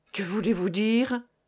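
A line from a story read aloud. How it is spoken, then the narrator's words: Crying out. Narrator (French): s'écria Annette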